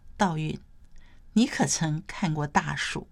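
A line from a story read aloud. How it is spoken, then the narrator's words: Soft. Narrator (Chinese): 他才轻声说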